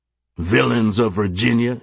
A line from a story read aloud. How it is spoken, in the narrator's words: he bellowed